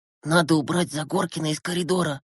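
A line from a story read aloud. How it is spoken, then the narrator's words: Whisper. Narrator (Russian): прошептал Глеб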